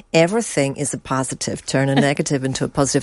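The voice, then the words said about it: Put-on American accent. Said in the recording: “I don't know why I've affected an American accent there”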